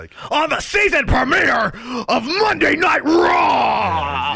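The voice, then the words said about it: Macho Vince McMahon impression. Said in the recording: “a Vince McMahon voice ... Macho.”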